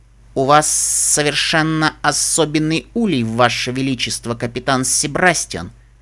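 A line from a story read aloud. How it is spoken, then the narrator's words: Thoughtful drawl. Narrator (Russian): Задумчиво протянул Лангоста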